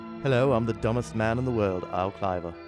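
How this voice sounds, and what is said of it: Poor impression, sounds a bit Beatle-ish. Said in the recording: “That's not a very good David Warbeck impersonation ... I think I came off a little Beatle-ish there ... You're doing a little John Lennon”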